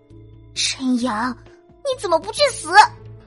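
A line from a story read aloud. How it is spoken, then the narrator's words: Resigned sigh. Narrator (Chinese): 林清雪无奈的叹了口气，对陈阳说道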